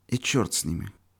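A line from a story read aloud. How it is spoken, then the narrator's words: Calm. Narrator (Russian): спокойно сказал Юрочка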